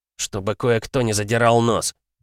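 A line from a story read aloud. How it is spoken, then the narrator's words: Grumbled. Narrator (Russian): буркнул он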